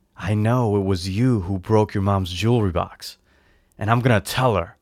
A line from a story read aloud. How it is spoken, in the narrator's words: said in a really low voice